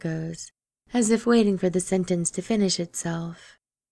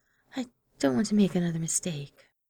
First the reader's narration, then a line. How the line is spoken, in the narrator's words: he adds, softly